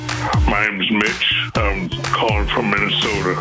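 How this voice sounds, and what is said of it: Put-on very deep fake voice. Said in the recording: “You got a very deep voice. ... Is it your real voice? ... No, it's not. ... fake voice”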